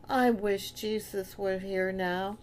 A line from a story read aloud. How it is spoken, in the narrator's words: Johnny said wistfully